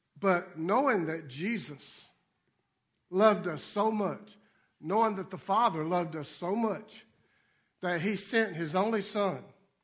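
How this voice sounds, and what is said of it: Speaks with a noticeable dialect. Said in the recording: “My dialect might not be as good. ... he's still trying to figure out my dialect.”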